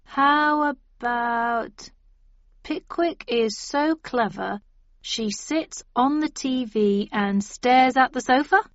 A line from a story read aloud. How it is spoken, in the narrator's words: said Ib slowly